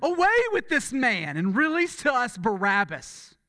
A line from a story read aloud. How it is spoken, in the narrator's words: they all cried together